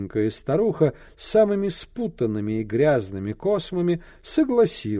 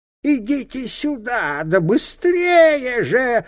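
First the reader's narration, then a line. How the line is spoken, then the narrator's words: Hoarse shriek, old woman. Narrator (Russian): хрипло завизжала старуха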